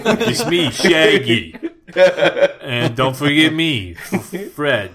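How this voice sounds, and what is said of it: Cartoon character impression voices. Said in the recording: “another impression of you doing an impression of Scott doing all the Scooby characters”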